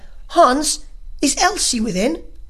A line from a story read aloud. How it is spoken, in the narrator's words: she … cried